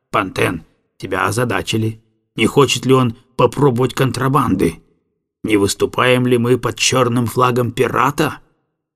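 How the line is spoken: Anxious muttering. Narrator (Russian): помощник беспокойно бормоча

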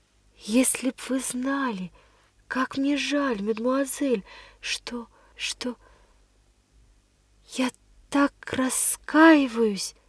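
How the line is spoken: Whisper. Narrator (Russian): прошептала

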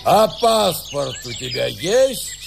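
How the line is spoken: Sudden menacing roar. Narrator (Russian): вдруг грозно взревел доктор

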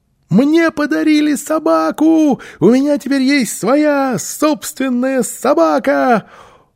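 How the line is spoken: Child shouting loudly. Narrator (Russian): Малыш громко крича

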